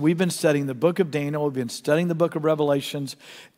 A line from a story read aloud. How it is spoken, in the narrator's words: said